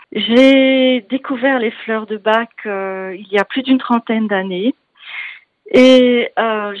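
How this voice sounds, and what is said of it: Strong Belgian French accent. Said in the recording (French): “vous entendrez un bon accent, donc que je ne suis pas d'ici, je suis belge”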